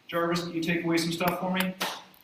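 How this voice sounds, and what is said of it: Tony Stark character impression. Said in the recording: “my best Tony Stark impersonation.”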